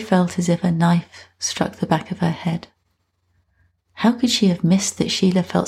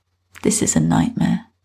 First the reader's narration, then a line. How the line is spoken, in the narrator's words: she mumbled